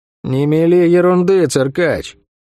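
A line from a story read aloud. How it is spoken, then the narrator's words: Grim reply. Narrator (Russian): мрачно ответила Сойка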